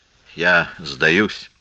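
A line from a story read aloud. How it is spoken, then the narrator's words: Sad. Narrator (Russian): грустно сказал Тат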